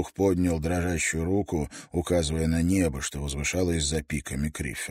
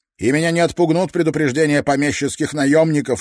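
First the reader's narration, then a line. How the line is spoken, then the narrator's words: Sharp. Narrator (Russian): резко произнес он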